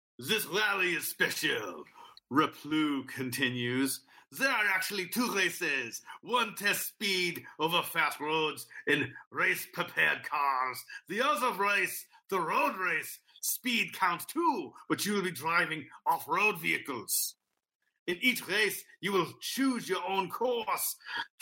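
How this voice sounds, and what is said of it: Put-on accent while reading. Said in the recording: “I'm going to give this guy an accent.”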